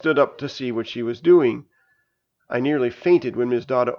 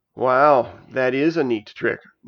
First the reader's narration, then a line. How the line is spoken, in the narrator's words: Nancy said sarcastically